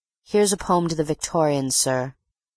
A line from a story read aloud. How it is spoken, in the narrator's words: said coldly